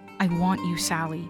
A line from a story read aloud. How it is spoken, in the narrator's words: he said